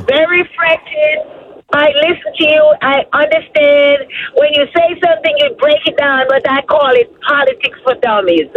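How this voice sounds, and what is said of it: Jamaican accent. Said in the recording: “I hear an accent. ... I'm from Jamaica.”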